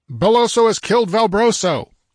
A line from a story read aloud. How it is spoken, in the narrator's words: yelled Conan